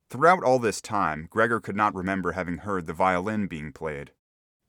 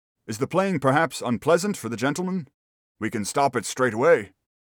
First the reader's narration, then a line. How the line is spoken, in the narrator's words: Gregor's father called out